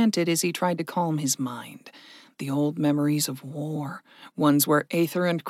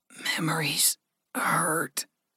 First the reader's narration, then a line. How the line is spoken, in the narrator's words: Gregory wheezed